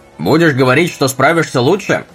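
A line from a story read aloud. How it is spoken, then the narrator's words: Sudden shout. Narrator (Russian): Вдруг Джим крикнул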